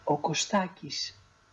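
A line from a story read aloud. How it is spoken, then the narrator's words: Very quiet reply. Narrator (Greek): η Μαγδαλένα αποκρίθηκε σιγά, μα πολύ σιγά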